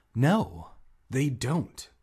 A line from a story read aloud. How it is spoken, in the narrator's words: Hannah replied sharply